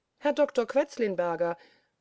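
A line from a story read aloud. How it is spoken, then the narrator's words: Astonished exclamation. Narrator (German): rief aber auch der junge Mann erstaunt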